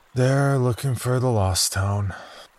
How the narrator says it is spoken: sighed regretfully

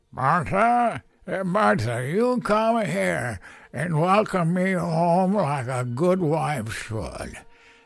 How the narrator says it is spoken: he shouted in a slurred fashion

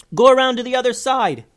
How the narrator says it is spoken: yelled Eleanor to Veronica

